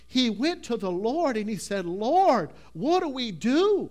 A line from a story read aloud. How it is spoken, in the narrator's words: He cried unto him